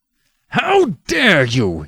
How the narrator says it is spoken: He cried

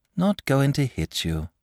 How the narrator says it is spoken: said the boy wearily

